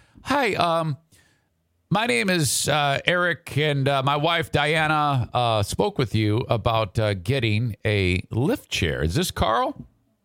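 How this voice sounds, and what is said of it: Put-on nice, friendly phone voice. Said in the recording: “I'm putting on a nice voice.”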